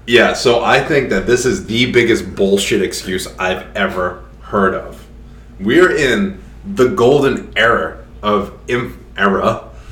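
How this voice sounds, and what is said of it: Rhode Island accent. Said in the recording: “There's the Rhode Island accent... I was just saying Rhode Island accent... I'll change it to age so you don't hear my accent.”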